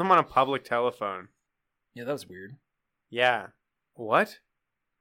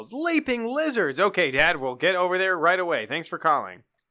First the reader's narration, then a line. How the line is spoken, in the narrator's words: he yells